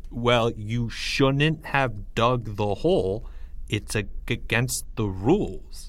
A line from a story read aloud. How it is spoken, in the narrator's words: stammered